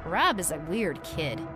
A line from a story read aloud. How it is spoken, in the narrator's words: Mike said